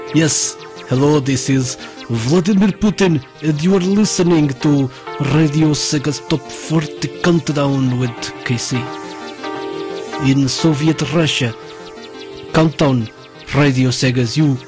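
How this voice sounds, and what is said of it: Put-on Russian accent. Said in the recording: “you went kind of Russian with that accent.”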